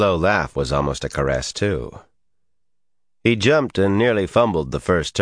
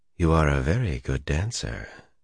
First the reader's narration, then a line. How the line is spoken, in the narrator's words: in that stroking voice